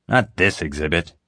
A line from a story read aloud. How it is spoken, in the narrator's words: the man snapped, like I was an idiot